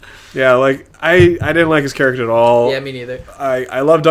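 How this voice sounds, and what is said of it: Usual voice. Nothing is said of it.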